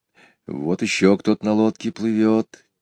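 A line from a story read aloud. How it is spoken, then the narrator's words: Quiet. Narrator (Russian): тихо сказал Петя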